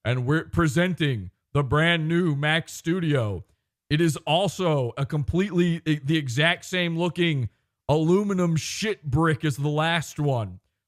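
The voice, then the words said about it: Imitates another person's voice. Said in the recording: “Wrong accent. Wrong voice. ... Hello, it is me, totally straight guy, Tim Cook.”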